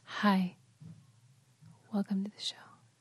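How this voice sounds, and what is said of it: Soft ASMR-style whisper. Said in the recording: “I should do what the ASMR people do ... you do it better than I do. I can't even do a good whispery voice”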